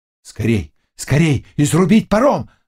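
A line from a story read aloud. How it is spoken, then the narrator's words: Several voices shouting. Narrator (Russian): закричали и другие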